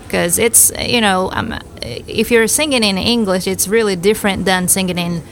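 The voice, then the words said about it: Strong Southern American accent. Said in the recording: “perfect that Southern accent ... to me, it sounds pretty strong”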